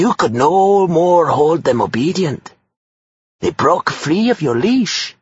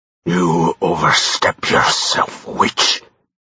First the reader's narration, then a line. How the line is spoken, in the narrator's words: he snarled